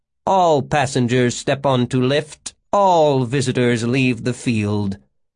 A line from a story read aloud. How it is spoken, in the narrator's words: a mechanical voice intoned